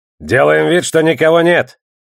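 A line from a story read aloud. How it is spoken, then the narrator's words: Lieutenant's bark. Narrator (Russian): рявкнул лейтенант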